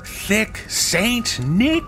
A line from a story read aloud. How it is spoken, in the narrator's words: they moan